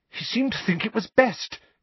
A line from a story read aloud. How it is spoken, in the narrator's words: said Hermione, rather breathlessly